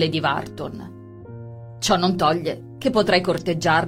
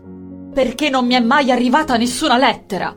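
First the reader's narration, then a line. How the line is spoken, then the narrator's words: Shouting. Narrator (Italian): gridò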